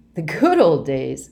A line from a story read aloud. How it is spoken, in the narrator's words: Bankhead chuckled